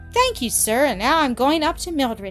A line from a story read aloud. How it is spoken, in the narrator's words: Annis said, running happily